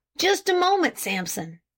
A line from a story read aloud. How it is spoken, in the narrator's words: suddenly exclaimed Farnsworth